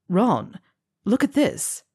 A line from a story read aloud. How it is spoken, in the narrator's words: he exclaimed